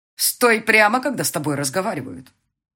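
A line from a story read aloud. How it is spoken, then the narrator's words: Barking shout. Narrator (Russian): рявкнула Лидия Петровна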